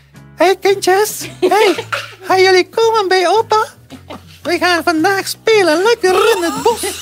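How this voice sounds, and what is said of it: Playful storytelling character voice. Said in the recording (Dutch): “doe eens snel een stemmetje ... ik ben dat stemmetje”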